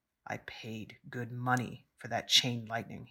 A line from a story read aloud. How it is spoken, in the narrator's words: he growled